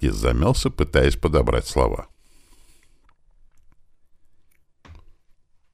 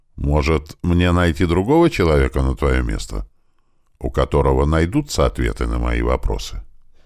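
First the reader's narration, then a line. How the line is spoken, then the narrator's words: Calm voice. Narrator (Russian): Голос звучал уже спокойно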